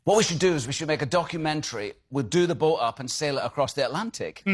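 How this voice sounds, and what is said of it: Scottish accent. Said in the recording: “One absolutely incredible accent. Gives away his country of origin right there... I'm playing a Scot talking on an American chat show.”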